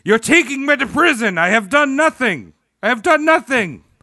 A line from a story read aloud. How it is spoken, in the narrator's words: all while he was shouting